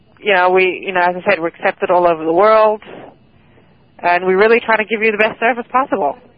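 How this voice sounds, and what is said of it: South African English accent. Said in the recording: “You have a British accent? ... I'm originally from South Africa.”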